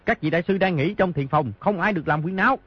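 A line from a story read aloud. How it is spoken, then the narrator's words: Shouting. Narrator (Vietnamese): quát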